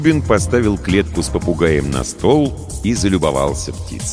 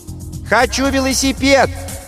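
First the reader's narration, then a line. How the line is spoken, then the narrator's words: Child shouting from outside. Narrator (Russian): крикнул со двора Максимка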